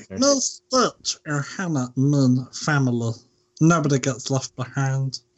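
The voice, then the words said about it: Imitates a cartoon alien character's voice. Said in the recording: “we still haven't had the Stitch impression”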